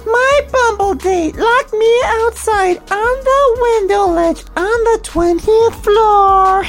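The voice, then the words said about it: Mocking put-on woman's voice. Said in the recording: “let me do this in bitch voice.”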